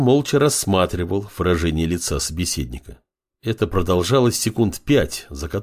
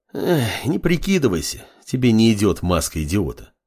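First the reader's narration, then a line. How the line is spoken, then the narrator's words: Sighing. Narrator (Russian): вздохнул Фар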